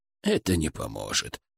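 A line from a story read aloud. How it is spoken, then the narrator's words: Quiet but firm. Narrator (Russian): тихо, но твердо сказал он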